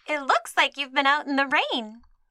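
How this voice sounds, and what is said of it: Perky young little girl voice. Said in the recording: “That's too young. ... That's my Little Miss Sunshine voice. ... that was a perfect little girl voice”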